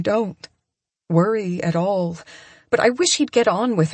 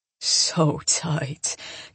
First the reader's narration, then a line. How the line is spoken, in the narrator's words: Coop murmurs